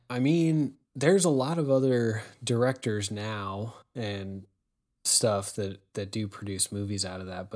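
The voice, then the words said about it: Raspy, strained voice. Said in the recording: “my voice is going out. So it's getting a little raspy.”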